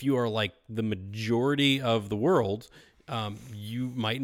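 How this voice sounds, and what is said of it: Usual voice. Nothing is said of it.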